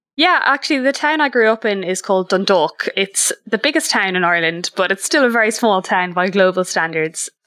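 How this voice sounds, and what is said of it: Irish accent. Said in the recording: “Most people might be able to recognize the Irish accent.”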